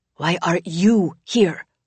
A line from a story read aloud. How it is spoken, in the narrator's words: Lena hisses at Chrissy again